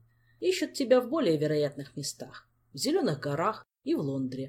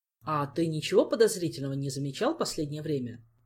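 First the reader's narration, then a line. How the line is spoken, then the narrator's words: Plain. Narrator (Russian): спросил он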